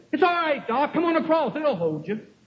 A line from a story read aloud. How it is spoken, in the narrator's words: hollered out and she said